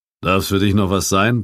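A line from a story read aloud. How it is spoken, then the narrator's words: Gruff innkeeper's grumble. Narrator (German): brummte die Stimme des Wirts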